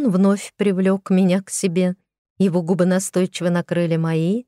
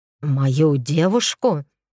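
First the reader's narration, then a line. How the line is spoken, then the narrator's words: Growl. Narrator (Russian): рыкнул он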